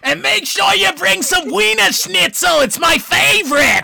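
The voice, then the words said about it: Loud screaming voice. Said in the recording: “stop yelling ... that's loud ... screaming into the microphone”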